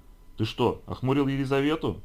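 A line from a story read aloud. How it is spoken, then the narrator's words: Bursting laughter. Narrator (Russian): Флинт расхохотался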